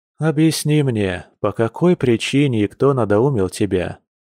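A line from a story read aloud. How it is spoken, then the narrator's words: Calm, after deep sigh. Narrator (Russian): оборотень спокойно и глубоко вздохнул, прежде чем произнести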